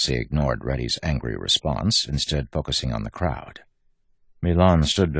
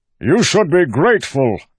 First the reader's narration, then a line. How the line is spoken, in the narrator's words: Milan shouted at the crowd